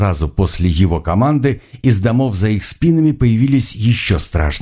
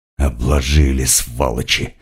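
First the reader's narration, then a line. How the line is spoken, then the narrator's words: Hissing female shaman. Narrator (Russian): прошипела шаманка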